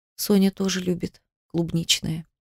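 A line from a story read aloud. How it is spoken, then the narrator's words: Whisper. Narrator (Russian): прошептала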